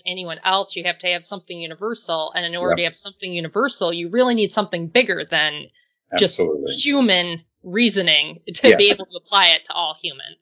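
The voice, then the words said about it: Upper Midwest American accent. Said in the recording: “your kind of upper Midwest neck of the woods, which I can hear in your accent”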